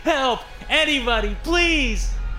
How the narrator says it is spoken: I screamed

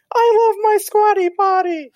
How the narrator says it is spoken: a little kid screaming

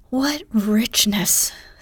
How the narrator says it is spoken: sighed Joe, with an intense air of satisfaction

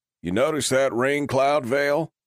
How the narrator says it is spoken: called out from the crowd

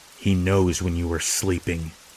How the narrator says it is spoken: the kid mutters

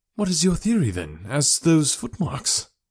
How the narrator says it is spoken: I asked eagerly

